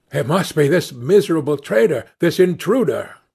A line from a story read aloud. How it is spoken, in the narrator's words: exclaimed the manager